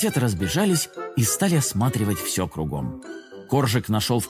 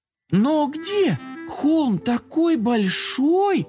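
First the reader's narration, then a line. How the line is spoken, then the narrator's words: Drawling. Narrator (Russian): протянула Карамелька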